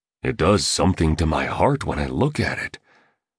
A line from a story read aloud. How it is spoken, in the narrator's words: murmured the artist